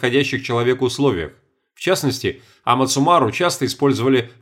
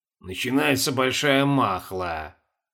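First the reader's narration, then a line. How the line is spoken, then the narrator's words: Muttered. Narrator (Russian): пробормотал Колобков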